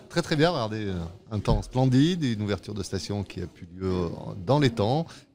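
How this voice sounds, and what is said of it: Light Savoyard French accent. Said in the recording (French): “un léger accent savoyard”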